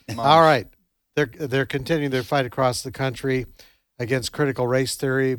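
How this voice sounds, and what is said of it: Canadian accent. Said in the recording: “your Canadian accent.”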